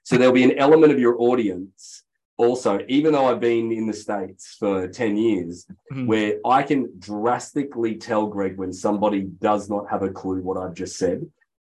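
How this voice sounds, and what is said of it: Australian accent. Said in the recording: “I have a funny Australian accent”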